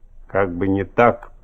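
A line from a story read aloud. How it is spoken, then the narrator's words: Big man, through teeth. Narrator (Russian): процедил огромный мужчина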